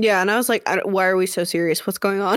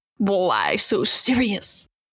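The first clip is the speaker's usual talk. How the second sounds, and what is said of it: Very poor Joker impression. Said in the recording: “That was exactly the world's worst Joker impression.”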